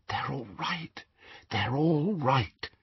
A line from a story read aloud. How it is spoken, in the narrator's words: she whispered